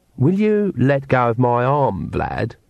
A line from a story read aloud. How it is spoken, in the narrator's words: said Agnes sweetly